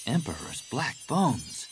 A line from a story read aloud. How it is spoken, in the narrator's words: Jaina breathed